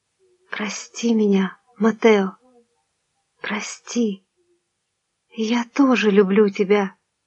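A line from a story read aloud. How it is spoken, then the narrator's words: Whispered. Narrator (Russian): прошептала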